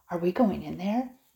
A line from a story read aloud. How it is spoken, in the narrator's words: Nicole asked excitedly